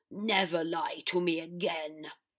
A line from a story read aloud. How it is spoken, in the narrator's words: Father snarled